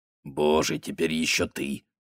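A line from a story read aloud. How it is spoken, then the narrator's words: Grumbling. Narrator (Russian): проворчал он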